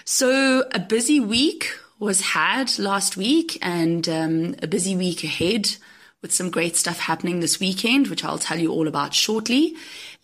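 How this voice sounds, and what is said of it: Hoarse, croaky voice. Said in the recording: “I know I sound like a frog ... I literally managed to get the flu ... excuse my voice ... I sound like I'm croaking”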